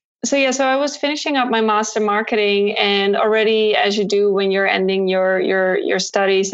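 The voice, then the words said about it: Dutch accent in English. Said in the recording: “As you can maybe tell from my accent, even though I tried to hide it, but I still kind of have this Dutch accent going on”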